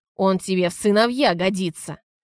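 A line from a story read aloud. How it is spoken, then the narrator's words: Growling. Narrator (Russian): продолжал рычать Антон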